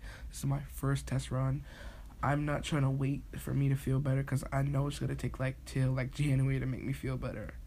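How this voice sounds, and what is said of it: Sick-sounding voice. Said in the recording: “don't feel kind of good today ... when I'm sick ... I'm sorry about my voice”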